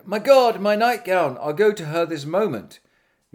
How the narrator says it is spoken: the queen immediately cried

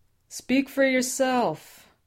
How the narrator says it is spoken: Sam yelled from below

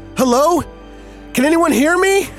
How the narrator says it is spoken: shouted

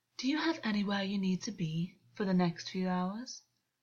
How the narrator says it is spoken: August purred

